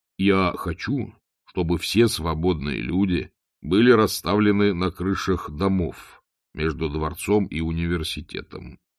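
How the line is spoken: Plain. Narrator (Russian): сказал Моркоу

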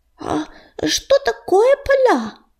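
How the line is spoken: Squeaky. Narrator (Russian): пропищал он

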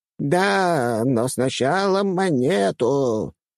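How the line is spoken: Creaky old voice. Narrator (Russian): скрипнула она

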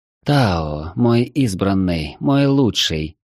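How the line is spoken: Purring. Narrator (Russian): промурлыкала она

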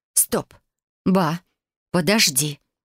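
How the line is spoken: Exclaimed. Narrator (Russian): воскликнула я

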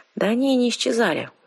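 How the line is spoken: Sighing. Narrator (Russian): вздохнула я

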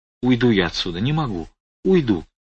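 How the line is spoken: Sobbing, muffled whisper. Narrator (Russian): Стелла, припав лбом к моему плечу, всхлипывала и шептала

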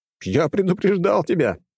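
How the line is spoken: Laughing. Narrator (Russian): продолжая смеяться, сказал ему

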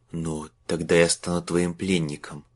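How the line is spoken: Slurred whisper, fear and anger. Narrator (Russian): прошептал Марк, невнятным от страха и злости голосом

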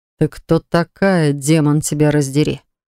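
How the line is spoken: Growl. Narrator (Russian): рыкнул незнакомец

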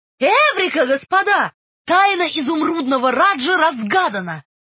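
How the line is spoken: Shouted. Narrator (Russian): Свит Чайлд крикнул

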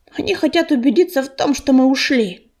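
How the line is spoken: Growl. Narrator (Russian): прорычала Рыжинка

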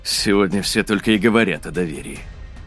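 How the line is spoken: Wry snort. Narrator (Russian): хмыкнул Ксейден

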